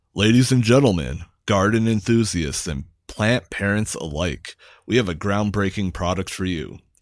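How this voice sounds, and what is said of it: Dramatic announcer voice. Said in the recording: “do the announcer voice?”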